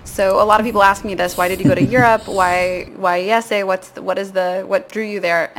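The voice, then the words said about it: American English accent. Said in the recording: “So I'm American, if you can't tell from the accent.”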